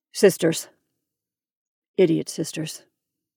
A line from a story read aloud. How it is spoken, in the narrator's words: the bishop gloomily corrected